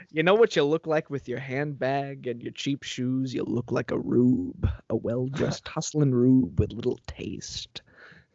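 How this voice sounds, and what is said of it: Imitates a film villain's voice. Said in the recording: “that's my Lecter impression”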